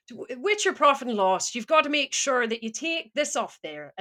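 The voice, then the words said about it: Put-on Irish accent, not convincing. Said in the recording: “can you do Irish? ... the Irish accent, which that wasn't a great example.”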